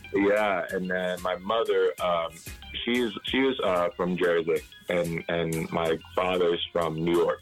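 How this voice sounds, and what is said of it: Strong Caymanian accent. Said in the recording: “you have a very Caymanian accent.”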